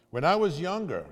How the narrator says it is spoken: he says

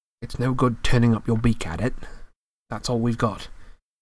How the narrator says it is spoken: said Harry grimly

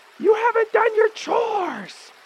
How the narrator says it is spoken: a voice shout from the house

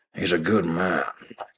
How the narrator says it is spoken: Kent grumbled

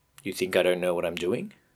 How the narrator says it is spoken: Jacob replied quickly

